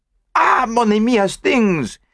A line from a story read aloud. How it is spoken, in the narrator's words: He cried